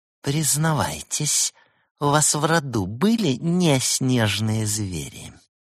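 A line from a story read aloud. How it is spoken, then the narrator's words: Angry hiss. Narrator (Russian): Разгневанная матушка Дыба злобно прошипела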